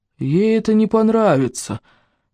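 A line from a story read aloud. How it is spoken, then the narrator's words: Gloomy. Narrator (Russian): мрачно ответил человек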